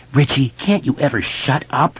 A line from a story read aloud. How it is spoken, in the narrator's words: Eddie hissed